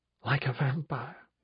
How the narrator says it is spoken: she said, musing, laughing softly under her breath

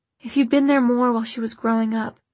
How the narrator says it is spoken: Jocelyn sighed

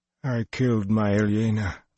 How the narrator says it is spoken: Luz Theron moaned every time a blow landed

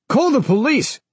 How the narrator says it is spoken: yelled the elevator operator

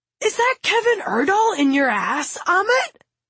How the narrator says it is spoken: Zacharias cries

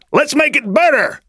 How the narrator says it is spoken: shouted one man

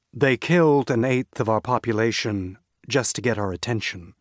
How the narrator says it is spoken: Kampar said dryly

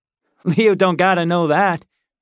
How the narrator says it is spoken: the first man said, laughing

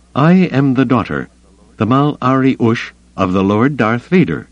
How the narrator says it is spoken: she said firmly

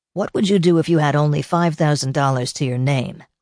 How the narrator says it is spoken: Lee asked him

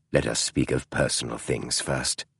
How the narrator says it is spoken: Holmes said in an infinitely softer tone

